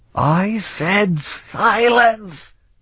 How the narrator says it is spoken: he roared

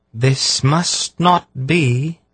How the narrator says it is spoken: she said in her clear, ringing voice

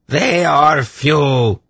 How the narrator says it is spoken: Irvan shrieked at them

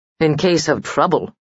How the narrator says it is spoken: said Joris dryly

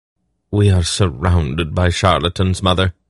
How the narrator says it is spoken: Polgara sighed

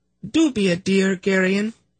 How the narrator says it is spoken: she said sweetly

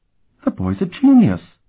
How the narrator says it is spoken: she exclaimed

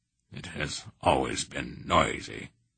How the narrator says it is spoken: he grunted sourly

